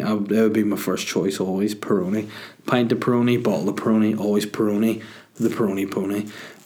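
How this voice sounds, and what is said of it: Strained, fading voice. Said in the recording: “my voice is just actually dying. Maybe I'm just losing my voice,”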